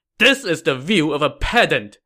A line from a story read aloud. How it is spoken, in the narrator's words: Jiang Wei said angrily